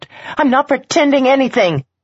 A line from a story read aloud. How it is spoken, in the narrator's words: Fast as lightning and twice as hot, she snapped